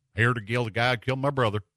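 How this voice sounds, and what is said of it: Liam Neeson's hillbilly accent impression. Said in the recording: “Liam Neeson was in that with a hillbilly accent.”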